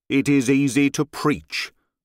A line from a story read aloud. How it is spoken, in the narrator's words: said he